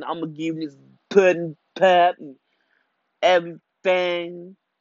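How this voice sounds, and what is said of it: Imitates another person's voice. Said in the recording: “I had to give you that little Bill Cosby. ... That little Bill Cosby impression.”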